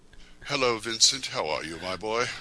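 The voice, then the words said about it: Deliberately lowered deeper voice. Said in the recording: “I'm trying to learn to lower my voice.”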